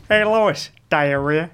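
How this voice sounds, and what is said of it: Cartoon character voice impression. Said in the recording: “Could do a good Peter from Family Guy ... That was actually really good. ... That's actually really good.”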